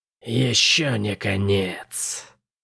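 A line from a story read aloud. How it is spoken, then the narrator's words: Creature whispering. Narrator (Russian): прошептало существо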